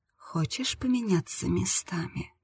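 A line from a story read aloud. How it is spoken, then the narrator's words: Purr. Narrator (Russian): промурлыкала она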